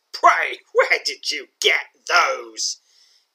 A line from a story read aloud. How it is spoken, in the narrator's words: hisses, his voice more sinister than any sound even the most wicked among men could hope to make